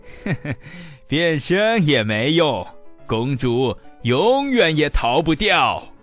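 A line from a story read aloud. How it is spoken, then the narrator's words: Contemptuous sinister laugh. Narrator (Chinese): 巫师呢，轻蔑的狞笑道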